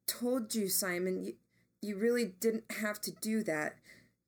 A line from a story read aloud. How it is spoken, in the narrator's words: Jamie said, his voice shaking a bit